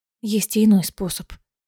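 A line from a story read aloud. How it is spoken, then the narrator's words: Quiet. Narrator (Russian): тихо сказала Аэлина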